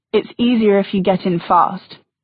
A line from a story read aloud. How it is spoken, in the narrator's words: he said